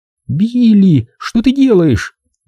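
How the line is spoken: Young woman pleading. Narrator (Russian): взмолилась девушка

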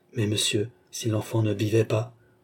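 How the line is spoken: Nurse objecting timidly. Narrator (French): objecta timidement la nourrice

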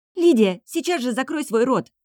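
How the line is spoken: Exclaimed. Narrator (Russian): воскликнула Марси

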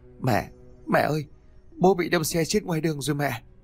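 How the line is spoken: Choked sobbing. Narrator (Vietnamese): Cậu bật khóc nức nở nói trong tiếng nức nghẹn ngào

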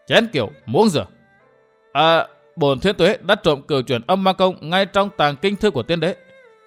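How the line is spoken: Hard, emphatic voice. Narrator (Vietnamese): y gằn giọng nói

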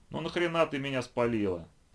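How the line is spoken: Grumbling from under car. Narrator (Russian): послышалось ворчание Флинта, выползающего из-под бампера

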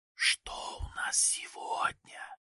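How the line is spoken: Whispering. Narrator (Russian): зашептал Саша

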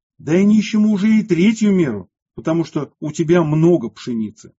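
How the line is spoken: Exasperated, upset shouting. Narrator (Russian): жена Филарета окончательно вышла из себя от огорчения и досады и закричала ему

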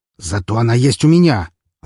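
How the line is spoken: Snapped back. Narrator (Russian): огрызнулся он

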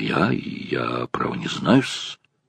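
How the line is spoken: Confused babbling. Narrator (Russian): растерянно залепетал он

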